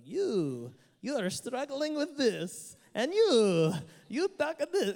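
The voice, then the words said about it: Put-on accent. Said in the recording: “I don't know where the accent came from because I'm brown, I can do that.”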